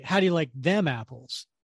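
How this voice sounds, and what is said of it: Ben Affleck impression, stressed 'them'. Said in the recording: “I always thought Ben Affleck put an emphasis on them... I think it was just the Boston accent... he totally put an emphasis on them”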